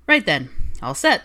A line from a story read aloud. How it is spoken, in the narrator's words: Harry announced cheerfully